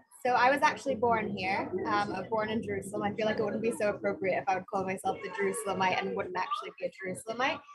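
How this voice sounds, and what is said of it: Mixed Israeli British American accent. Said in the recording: “You have the most mixed accent... I can't tell if you're Israeli, British, or American... I think you talk more British to me.”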